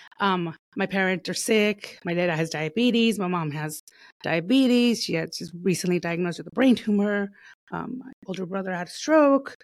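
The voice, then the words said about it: Emotional, shaky voice. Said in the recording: “I'm getting a little emotional there.”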